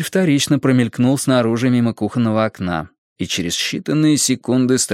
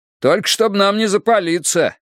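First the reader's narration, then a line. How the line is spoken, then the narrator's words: Shouting after someone. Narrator (Russian): крикнул ему вслед Страйк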